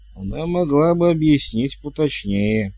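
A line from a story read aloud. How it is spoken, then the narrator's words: Grumbling. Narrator (Russian): пробурчал Хью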